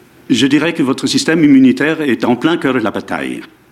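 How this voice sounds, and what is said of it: Strong foreign accent, villain-like. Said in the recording (French): “Votre accent est très prononcé... votre accent est correct dans votre pays, mais ici, je continue à penser que vous allez torturer James Bond”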